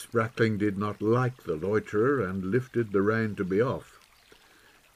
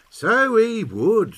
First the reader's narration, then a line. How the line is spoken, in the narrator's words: sneered the lout